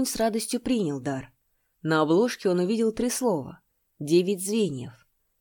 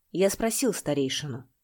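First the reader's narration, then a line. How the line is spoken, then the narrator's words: Plain. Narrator (Russian): сказал Янь Джиньмин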